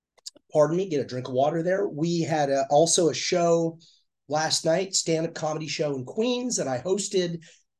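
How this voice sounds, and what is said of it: Hoarse, strained sick voice. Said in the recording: “I'm a little under the weather. That's why my voice sounds the way it does ... my voice is just a teeny little bit blown out”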